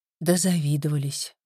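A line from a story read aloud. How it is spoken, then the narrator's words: Sigh. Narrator (Russian): вздохнула Тоня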